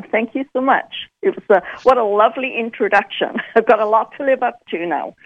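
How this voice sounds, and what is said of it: British accent. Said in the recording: “I love your accent, by the way... That's the Brit in me. I haven't lost it entirely.”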